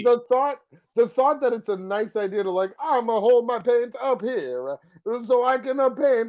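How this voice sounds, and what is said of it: Puts on an odd accent. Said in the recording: “Where is this accent coming from?”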